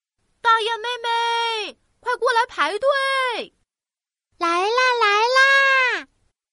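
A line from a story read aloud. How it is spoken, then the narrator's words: Loud calling. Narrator (Chinese): 大雁哥哥对着大雁妹妹大声喊道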